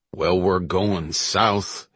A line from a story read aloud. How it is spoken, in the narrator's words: Hill grumbled